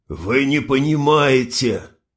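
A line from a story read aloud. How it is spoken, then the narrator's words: Hoarse wheeze. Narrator (Russian): прохрипел Нютин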